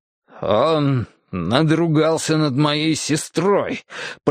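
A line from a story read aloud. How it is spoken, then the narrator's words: Grating through teeth. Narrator (Russian): проскрежетал я сквозь зубы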